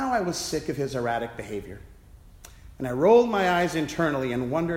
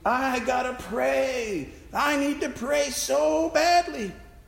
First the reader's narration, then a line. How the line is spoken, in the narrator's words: Brother Al began moaning